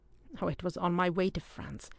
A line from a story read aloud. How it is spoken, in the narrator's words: said the adventurer sulkily